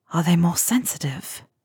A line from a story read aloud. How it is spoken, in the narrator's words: Harry whispers